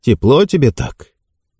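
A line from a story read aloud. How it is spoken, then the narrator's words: Gentle question. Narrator (Russian): Том Полтер ласково спросил его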